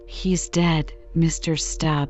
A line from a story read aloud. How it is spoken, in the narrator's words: said Digu